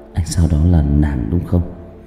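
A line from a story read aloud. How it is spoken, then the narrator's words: Mutter. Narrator (Vietnamese): lẩm bẩm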